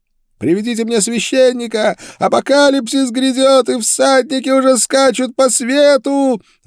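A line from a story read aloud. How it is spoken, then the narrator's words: Madman screaming. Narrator (Russian): вопил умалишенный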